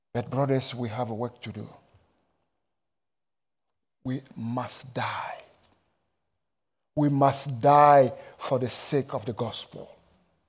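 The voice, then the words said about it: Strong foreign accent. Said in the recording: “my crazy accent.”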